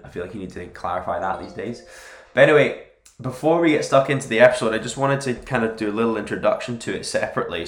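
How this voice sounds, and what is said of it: Slightly off voice from a cold. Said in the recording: “my voice is a little bit off now because I seem to have got a cold”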